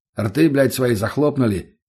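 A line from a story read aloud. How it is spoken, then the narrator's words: Barked. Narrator (Russian): рявкнул я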